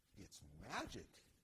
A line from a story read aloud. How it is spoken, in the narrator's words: Julianne said